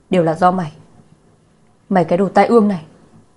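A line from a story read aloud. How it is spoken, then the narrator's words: Angry. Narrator (Vietnamese): Lạc Gia Hân tức giận nói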